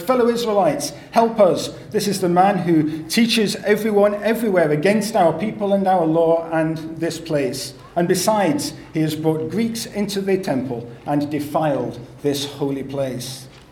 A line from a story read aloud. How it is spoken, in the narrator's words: they begin to shout